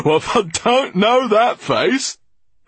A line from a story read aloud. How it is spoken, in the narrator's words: cried the man incredulously